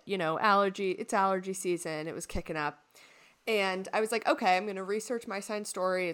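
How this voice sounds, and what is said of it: Congested, sniffly voice. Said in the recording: “I don't know if you can tell by my voice, but I've got the sniffles a little bit”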